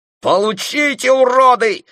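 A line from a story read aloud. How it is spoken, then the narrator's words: Yelling. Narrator (Russian): заорал Дэйв Стоун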